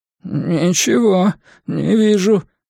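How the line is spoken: Trembling strained voice. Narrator (Russian): дрожащим голосом выдавил Шпиндель

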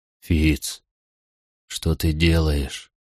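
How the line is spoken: Barely audible question. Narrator (Russian): еле слышно спросил Верити

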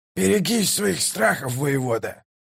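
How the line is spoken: Growled. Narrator (Russian): прорычал Калор

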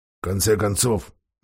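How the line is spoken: Mutter. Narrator (Russian): бормотал он

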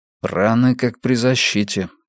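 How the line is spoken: Muttering. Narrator (Russian): пробормотал Йона

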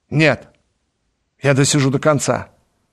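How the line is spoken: Sharp, bitter objection. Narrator (Russian): возразил Дриан резко и с горечью

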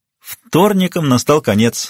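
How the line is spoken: Laughing. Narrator (Russian): рассмеялась она

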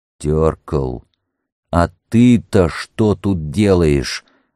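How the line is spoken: Stern, suppressing laughter. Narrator (Russian): МакМёрфи старался говорить строго, а сам с трудом сдерживал смех

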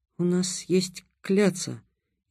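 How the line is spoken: Barely audible. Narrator (Russian): еле слышно выговорил Будимир

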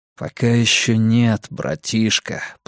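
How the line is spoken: Muttered. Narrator (Russian): пробормотал Вуко

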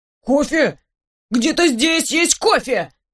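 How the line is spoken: Shout from close below. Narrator (Russian): Закричал кто-то у меня из-под руки

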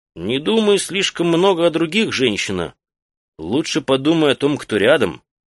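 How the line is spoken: Stern. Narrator (Russian): строго сказал Наконта

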